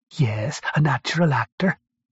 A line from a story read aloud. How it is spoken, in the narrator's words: hissed